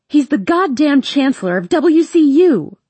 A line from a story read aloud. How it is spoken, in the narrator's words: I scream